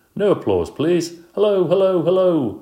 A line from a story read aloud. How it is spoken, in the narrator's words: shouted